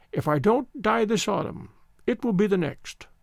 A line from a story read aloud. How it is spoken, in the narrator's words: the old voice quavered